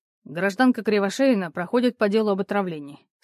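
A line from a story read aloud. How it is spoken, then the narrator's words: Calm, slightly sympathetic. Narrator (Russian): сказал Кирьянов спокойно, несколько сочувствующе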